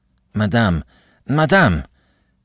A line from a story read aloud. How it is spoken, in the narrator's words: he panted, out of breath